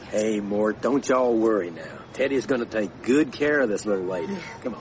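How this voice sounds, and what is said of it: Southern US accent. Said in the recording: “your accent. ... Is it Mississippi? ... I grew up in a little town 50 miles south of Nashville”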